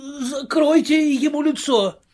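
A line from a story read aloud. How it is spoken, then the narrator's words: Shouting. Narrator (Russian): крикнул кто-то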